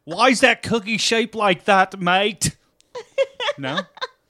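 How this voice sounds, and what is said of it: Put-on English accent. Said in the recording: “this is my English accent guy”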